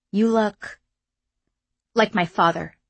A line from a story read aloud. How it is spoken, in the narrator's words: Khalid finished in a clipped tone